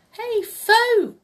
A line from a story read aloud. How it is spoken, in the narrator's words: he cried